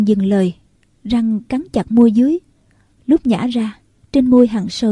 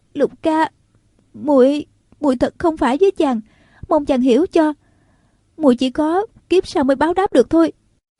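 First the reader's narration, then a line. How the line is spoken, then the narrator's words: Trembling voice. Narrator (Vietnamese): Nàng nói giọng run run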